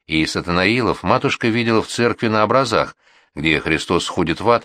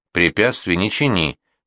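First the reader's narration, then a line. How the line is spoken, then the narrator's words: Stern. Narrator (Russian): строго сказал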